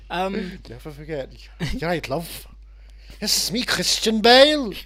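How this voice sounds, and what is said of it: Put-on East London accent. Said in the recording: “I have adopted a stupid East London accent”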